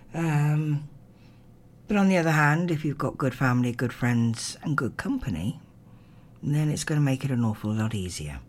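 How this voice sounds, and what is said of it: Strained, worn-out voice. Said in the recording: “you can probably hear now, my voice is now starting to really say, you've talked too much... talking too much could damage your vocal cords”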